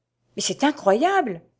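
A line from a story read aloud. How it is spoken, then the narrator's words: Exclaimed. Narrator (French): s'écria Antonia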